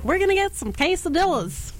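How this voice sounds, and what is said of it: Put-on Texas accent. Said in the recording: “Texas is more like ... That was good.”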